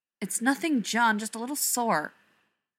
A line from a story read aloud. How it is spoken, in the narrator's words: Rodney snapped